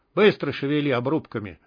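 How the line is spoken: Rough and harsh. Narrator (Russian): сказал он грубо и жестко

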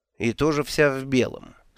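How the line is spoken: Dry, curt. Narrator (Russian): сухо промолвила она

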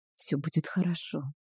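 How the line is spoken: Whisper. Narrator (Russian): шепотом сказала я

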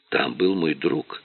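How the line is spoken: Quiet. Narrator (Russian): тихо сказала она

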